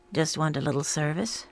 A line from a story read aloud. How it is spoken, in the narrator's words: said Kedzie calmly